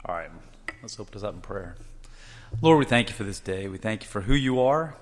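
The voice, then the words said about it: Unusually deep, husky voice. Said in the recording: “I brought my frog in my throat today, so you get the deep voice with a deeper.”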